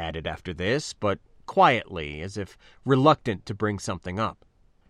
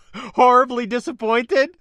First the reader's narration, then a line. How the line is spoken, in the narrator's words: I asked, laughing